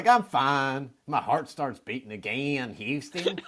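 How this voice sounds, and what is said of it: Impression of CJ's voice. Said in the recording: “That was the perfect CJ accent, too.”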